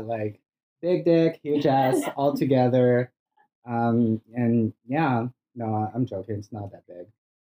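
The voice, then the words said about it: Brazilian Portuguese accent in English. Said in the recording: “Where's your accent from? ... I'm originally from Brazil. ... So bad English is”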